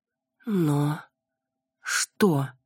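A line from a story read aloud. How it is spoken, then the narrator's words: Stammering, forced out. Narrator (Russian): выдавила я, заикаясь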